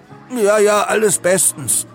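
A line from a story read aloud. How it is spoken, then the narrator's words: Stammering. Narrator (German): stammelte er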